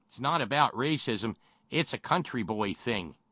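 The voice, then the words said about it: Exaggerated white country-boy accent. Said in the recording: “How am I supposed to not do the cracker ass accent?”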